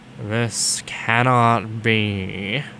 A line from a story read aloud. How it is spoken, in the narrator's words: Snape said in a crisp voice